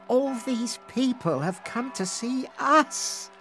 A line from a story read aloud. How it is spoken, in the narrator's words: she sighed